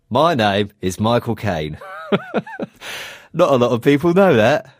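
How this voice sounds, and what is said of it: Imitates another person's voice. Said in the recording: “impersonations ... Not bad”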